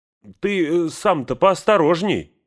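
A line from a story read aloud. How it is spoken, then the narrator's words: Shouted. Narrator (Russian): крикнула она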